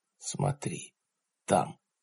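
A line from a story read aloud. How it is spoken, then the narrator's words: Whispered. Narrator (Russian): прошептал Джад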